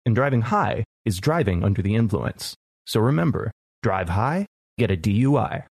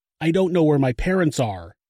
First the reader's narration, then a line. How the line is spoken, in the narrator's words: Jennifer yelled into the phone